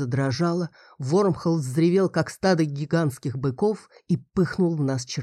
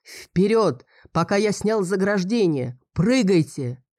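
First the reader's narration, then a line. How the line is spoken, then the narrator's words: Booming shout. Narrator (Russian): Фарбус крикнул гулким голосом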